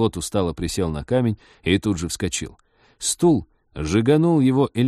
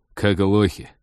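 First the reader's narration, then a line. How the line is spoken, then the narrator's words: Irritated question. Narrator (Russian): раздраженно спросил Базиль, по ухмылке напарника поняв, что тот знал о свойствах пограничного столба, но смолчал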